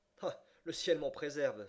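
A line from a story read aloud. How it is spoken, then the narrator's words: Exclaiming. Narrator (French): s'écria Stuart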